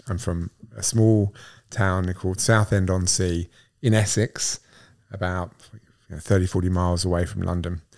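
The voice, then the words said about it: English accent. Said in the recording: “your accent doesn't sound the same as mine and Will's... No, I'm English.”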